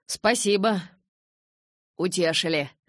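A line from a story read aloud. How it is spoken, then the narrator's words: Snort then laughter. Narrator (Russian): фыркнул папа и расхохотался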